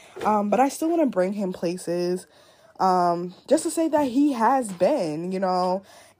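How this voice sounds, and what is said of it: Congested, stuffy-nosed voice. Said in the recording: “my nose is stuffy. As you guys can probably hear, I sound terrible.”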